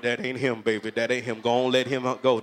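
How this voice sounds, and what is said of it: High-pitched grandmother voice. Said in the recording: “What a high voice, grandma.”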